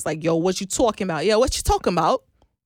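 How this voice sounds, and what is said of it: Put-on New York accent. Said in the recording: “a watered down version of a New York accent”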